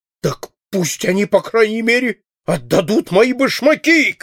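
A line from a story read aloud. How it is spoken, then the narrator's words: Furious shout. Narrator (Russian): крикнул в припадке охватившего его бешенства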